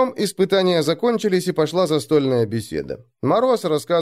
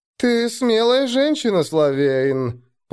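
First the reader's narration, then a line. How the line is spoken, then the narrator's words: Drawling. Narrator (Russian): протянул наемник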